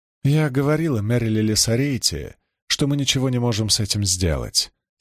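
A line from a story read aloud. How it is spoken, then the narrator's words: Calm. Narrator (Russian): спокойно произнесла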